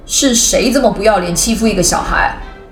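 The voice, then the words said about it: Loud, commanding, authoritative male voice. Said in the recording (Chinese): “一个洪亮、充满威严的声音说”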